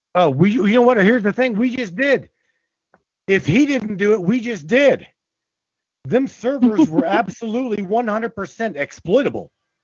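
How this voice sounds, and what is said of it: Angry shouting. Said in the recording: “I'm screaming. ... I'm pissed off.”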